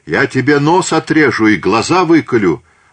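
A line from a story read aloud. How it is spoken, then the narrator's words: Distant shouting through smoke. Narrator (Russian): С кормы Капуданье, прямо из дыма, Ушакова кричали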